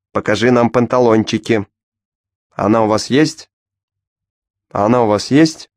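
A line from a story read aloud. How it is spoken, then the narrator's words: Shouted. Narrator (Russian): крикнул он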